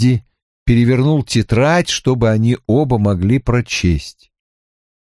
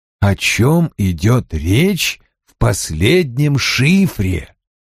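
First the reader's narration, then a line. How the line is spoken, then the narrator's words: Slow, deliberate question. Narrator (Russian): Медленно, с расстановкой, спросил Коули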